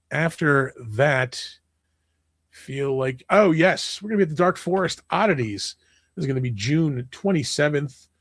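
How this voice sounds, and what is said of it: Hoarse, strained voice. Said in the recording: “I am losing my voice.”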